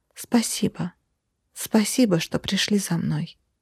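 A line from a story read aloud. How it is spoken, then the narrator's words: Barely audible. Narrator (Russian): едва слышно произнесла я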